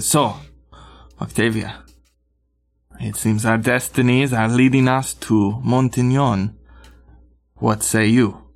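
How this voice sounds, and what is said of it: Put-on character accent. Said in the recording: “I got to get back into this accent. Not this accent, it's not this. Hold on, you'll have to give me a minute.”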